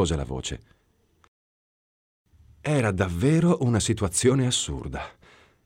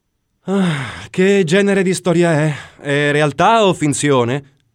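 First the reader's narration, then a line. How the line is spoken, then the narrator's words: Sighing. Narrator (Italian): sospirai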